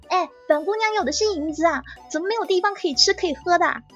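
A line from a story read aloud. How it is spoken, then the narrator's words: Shouting. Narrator (Chinese): 我很想大喊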